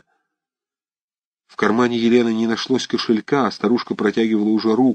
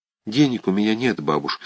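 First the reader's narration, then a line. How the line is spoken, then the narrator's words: Plain. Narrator (Russian): сказала Елена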